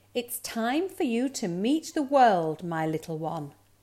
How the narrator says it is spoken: said his mother

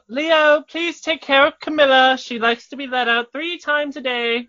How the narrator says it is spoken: She's going to yell out

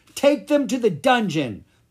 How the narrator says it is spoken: the head goblin cried

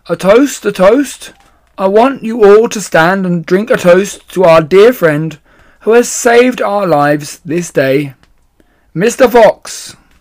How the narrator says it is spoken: called out

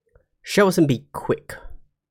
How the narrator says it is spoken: Carehill snapped

